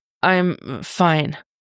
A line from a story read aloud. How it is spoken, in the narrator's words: he croaks out